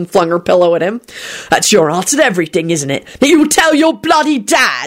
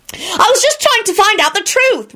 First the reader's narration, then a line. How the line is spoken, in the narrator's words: Rosie screamed